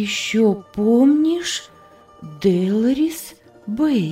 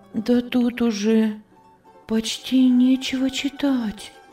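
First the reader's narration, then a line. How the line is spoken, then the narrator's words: Whisper. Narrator (Russian): прошептала Анна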